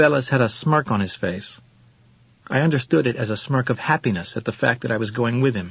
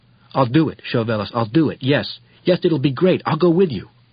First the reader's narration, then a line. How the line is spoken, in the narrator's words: I felt something like an electric shock go through my neck, and I heard myself saying in the most agitated tone one can imagine